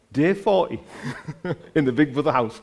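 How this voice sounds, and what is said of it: Put-on Geordie accent. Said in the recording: “has anyone got a good Geordie accent? ... got a good Geordie accent.”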